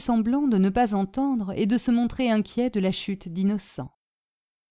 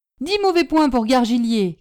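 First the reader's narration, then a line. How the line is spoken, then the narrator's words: Teacher shouting. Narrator (French): cria le maître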